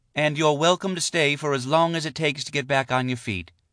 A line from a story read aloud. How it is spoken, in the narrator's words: Shala said sweetly